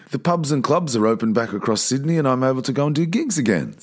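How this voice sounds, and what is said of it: Slightly sore, strained voice. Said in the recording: “my voice sounds a little sore, that's because I've been singing”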